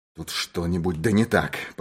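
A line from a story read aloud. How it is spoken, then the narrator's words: Muttering. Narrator (Russian): пробормотал он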